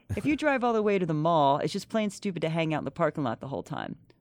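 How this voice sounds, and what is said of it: Imitates another person's voice. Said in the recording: “in my Dave Hill voice ... Did I do a good impression? ... You nailed it.”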